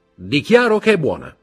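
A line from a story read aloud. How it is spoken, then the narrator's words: Shouted. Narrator (Italian): gridò Morrel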